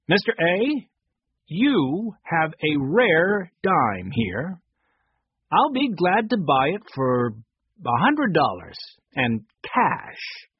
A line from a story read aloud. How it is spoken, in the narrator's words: said slowly